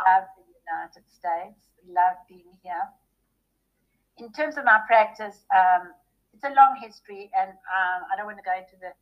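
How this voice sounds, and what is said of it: South African accent. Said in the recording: “you can hear from my accent that I wasn't born in Texas. I was born in South Africa”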